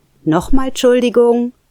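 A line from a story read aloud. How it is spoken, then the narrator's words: Voice calling out again. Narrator (German): rief die Stimme erneut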